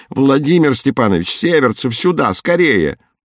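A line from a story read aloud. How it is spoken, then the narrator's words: Shouting. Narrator (Russian): закричал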